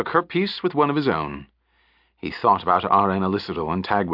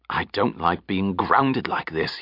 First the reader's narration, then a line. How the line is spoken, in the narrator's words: he growled